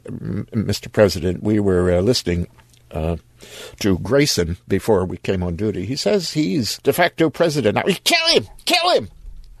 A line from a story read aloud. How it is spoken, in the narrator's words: The chief of the detail said uneasily